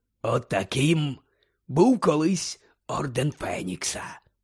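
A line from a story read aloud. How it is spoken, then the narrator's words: Growled. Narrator (Ukrainian): прогарчав Муді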